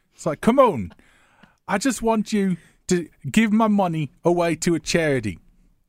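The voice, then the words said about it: British accent, Michael Caine impression. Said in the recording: “I'd have to do that in a British accent ... That was very Michael Caine that I just did”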